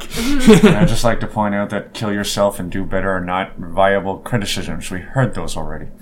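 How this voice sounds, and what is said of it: Speaks in a character voice. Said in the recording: “Why are you doing that in the character voice?”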